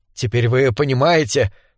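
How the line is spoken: Trembling voice. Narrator (Russian): сказал он дрожащим голосом

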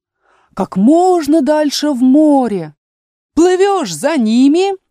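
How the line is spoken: Shrill shriek. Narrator (Russian): завизжал Грифон

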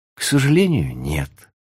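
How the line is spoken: Sighing. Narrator (Russian): вздохнула она

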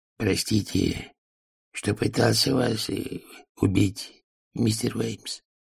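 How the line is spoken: Whisper. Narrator (Russian): прошептал он

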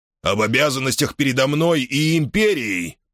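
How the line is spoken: Roaring. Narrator (Russian): проревел Арн Аббас

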